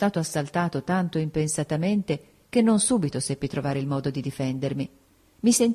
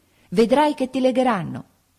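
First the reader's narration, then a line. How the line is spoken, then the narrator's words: Shouted spitefully. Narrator (Italian): gridarmi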